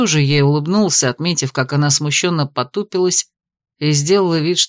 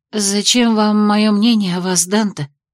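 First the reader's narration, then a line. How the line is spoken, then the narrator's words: Shaky voice. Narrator (Russian): спросила Элиния дрогнувшим голосом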